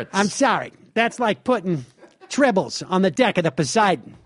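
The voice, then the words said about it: Dennis Miller impression. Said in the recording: “your Dennis Miller impression ... that's a little Dennis-y right there ... That's a good impression.”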